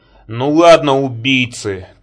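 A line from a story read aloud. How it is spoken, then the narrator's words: Shouted. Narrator (Russian): крикнула Кэрол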